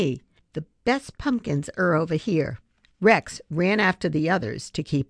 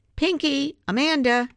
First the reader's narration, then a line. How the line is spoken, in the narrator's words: Abby called out